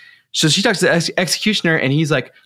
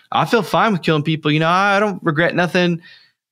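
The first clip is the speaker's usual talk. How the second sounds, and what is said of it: Put-on Texan accent. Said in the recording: “Why'd you give him that accent? ... That's his accent. ... I feel like you're judging Texans.”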